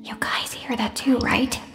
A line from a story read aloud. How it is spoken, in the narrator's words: whispered